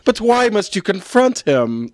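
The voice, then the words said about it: Hammy theatrical actress voice. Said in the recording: “talking like a crappy Shakespeare in the Park actress”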